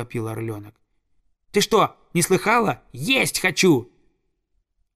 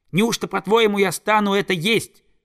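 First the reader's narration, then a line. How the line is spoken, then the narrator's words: Angry hiss. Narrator (Russian): зло зашипел он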